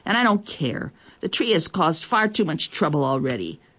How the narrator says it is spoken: she said crossly

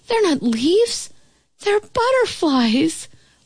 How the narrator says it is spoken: I exclaim

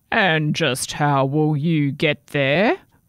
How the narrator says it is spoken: growled the troll

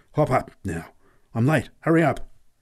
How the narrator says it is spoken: exclaimed urgently

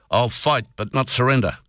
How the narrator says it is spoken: cried the wild colonial boy

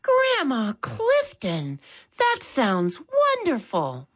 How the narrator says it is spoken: Molly exclaimed

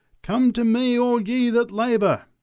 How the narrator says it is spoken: cried the preacher

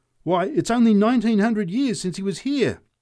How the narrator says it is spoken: shouted the drunk

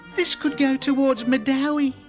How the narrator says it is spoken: exclaimed Abadare

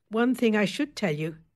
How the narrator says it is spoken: she said

